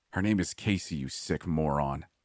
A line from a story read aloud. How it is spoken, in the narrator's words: I snarled